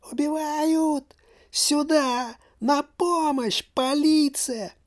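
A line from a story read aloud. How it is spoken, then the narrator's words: Thin but loud shout. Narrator (Russian): закричала тоненьким, но громким голоском нищенка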